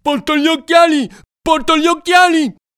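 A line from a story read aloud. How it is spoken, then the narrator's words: Shouting. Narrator (Italian): Benigno, che gridava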